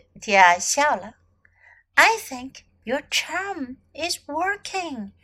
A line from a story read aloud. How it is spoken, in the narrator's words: she whispered to Gracie